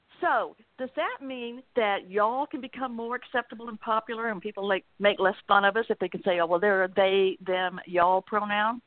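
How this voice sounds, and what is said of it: Southern US accent. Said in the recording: “you can probably tell by my accent that I'm a Southerner”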